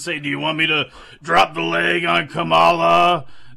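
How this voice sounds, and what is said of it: Imitates another person's voice. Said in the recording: “That was my best Hulk Hogan impression right there, too. I guess I won't get the gig.”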